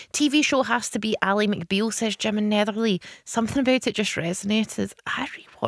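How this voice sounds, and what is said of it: Usual voice. Nothing is said of it.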